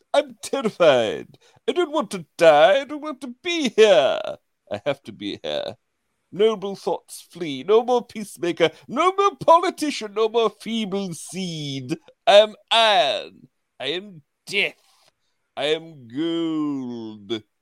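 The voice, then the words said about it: Put-on posh British character voice. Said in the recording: “you do a great voice ... a ridiculous voice of privilege ... a British accent”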